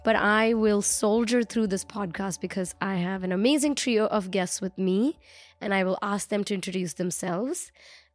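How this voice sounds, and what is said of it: Hoarse, nearly lost voice. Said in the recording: “my voice is very much gone”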